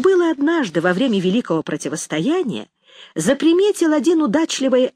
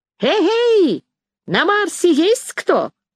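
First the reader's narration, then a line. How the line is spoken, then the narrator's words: Loud shout through cupped hands. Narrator (Russian): Сложив рупором ладони, громко крикнул в небо Расщепей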